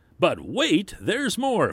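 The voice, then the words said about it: Exaggerated salesman pitch voice. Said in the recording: “in my best salesman voice”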